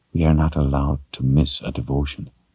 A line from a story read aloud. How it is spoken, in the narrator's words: she explained in a quiet voice